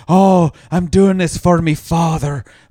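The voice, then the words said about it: Exaggerated mock Irish accent. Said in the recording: “the accent he's trying to put, I think it's an Irish accent”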